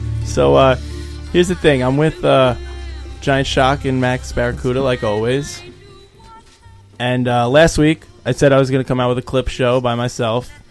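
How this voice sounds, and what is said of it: Hoarse, strained worn-out voice. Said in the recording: “My voice is shot. ... I lost my voice”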